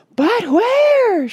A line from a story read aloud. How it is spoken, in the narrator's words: shrieked Mrs